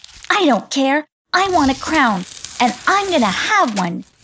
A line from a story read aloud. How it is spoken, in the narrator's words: snapped back Selfina